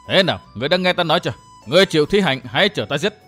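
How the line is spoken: Shouting. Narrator (Vietnamese): gã thiếu niên hét

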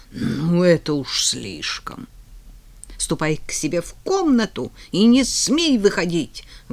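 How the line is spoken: Stern motherly order. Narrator (Russian): грозно велела мама

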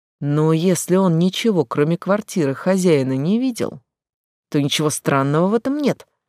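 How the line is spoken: Plain. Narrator (Russian): ответил третий голос

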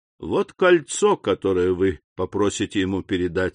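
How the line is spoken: Plain. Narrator (Russian): сказал капитан

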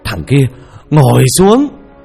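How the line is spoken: Frightened man. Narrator (Vietnamese): Ông thầy trong sợ hãi

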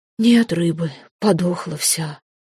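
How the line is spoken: Sad sigh. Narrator (Russian): печально вздохнул Водяной

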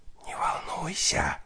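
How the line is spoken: Whispered. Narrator (Russian): Нина шепнула

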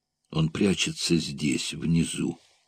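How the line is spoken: Whispered. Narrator (Russian): прошептал негр Кармо

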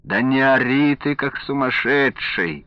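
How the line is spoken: Grumbling from hallway. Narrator (Russian): заворчал из коридора Александр Сергеевич

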